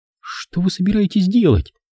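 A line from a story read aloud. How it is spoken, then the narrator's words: Frightened question. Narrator (Russian): спросила она испуганно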